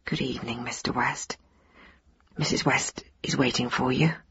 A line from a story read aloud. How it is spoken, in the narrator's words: Shyly murmur